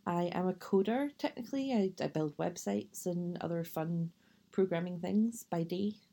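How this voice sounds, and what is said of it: Scottish accent, west of Scotland. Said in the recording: “The accent probably gives it away, but I am from Scotland, from the west of Scotland originally”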